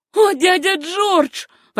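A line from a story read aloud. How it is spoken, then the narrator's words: Girl's sobbing exclamation. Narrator (Russian): воскликнула девушка, и в голосе ее послышались рыдания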